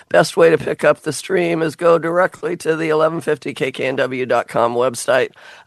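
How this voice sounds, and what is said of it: Worn-out, strained voice. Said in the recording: “I'm not as bad as I sound. I just wore out my voice.”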